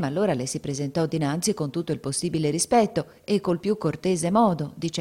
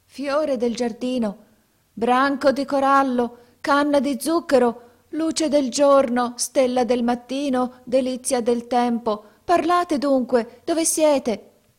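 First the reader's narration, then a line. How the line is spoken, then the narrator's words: Startling shout. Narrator (Italian): gridò con voce che fece trasalire Canem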